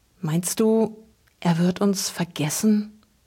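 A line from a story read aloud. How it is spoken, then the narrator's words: Barely audible whisper. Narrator (German): wisperte Luke kaum hörbar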